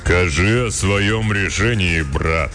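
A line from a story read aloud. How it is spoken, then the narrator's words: Booming, stout wizard. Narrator (Russian): прогудел тучный и низкорослый кудесник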